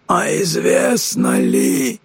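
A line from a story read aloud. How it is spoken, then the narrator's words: Angry rasp. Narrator (Russian): прохрипел сердито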